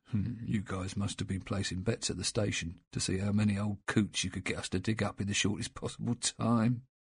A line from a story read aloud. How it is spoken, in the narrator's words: one of the gravediggers muttering